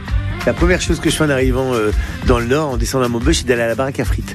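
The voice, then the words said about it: Northern French regional accent. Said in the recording (French): “n'a jamais perdu ni son accent, ni ses traditions du Nord. ... cet accent, pour moi, c'est une carte postale. ... avec cet accent, on sait que je viens pas de là où je suis, on sait que je viens du Nord.”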